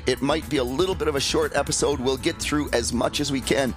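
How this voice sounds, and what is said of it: Strained voice in poor condition. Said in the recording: “my voice is not great”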